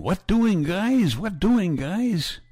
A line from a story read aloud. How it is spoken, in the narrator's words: Kurt, the youngest of our boys, hollering